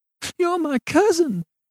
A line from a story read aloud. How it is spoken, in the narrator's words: sobbed Bernice